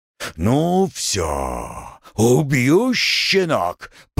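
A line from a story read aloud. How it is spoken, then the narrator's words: Growling. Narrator (Russian): прорычал он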